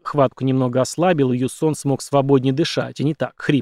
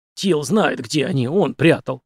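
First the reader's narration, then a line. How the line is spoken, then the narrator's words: Hoarse wheeze. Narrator (Russian): прохрипел Юсон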